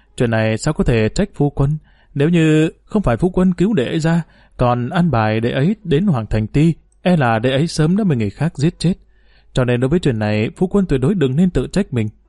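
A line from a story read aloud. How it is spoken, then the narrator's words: Sighing, self-reproachful. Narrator (Vietnamese): Triệu Nhan thở dài, đồng thời cũng có chút tự trách mà nói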